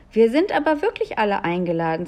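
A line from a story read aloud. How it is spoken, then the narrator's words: Plain. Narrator (German): sagte Julia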